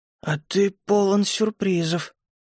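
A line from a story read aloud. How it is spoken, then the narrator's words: Hoarse voice. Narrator (Russian): сиплым голосом произнесла она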